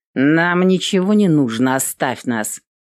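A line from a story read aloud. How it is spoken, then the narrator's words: Rude, curt. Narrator (Russian): грубо отрезала Эвелин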